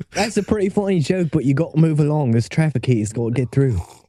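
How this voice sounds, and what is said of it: Put-on accent. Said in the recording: “that's actually that's the best accent you've ever done ... This is the worst accent that's ever been done.”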